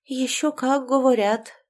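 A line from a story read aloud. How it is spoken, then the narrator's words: Sighing. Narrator (Russian): вздохнула та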